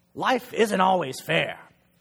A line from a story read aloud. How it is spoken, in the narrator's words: Grandpa snaps back